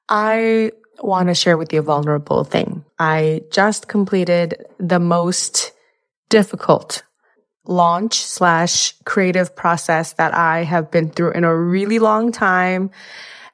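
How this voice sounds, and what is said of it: Sick, slightly off throaty voice. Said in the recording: “forgive me for my voice in this episode. I am sick. I caught a throat something ... my voice is a little funny today”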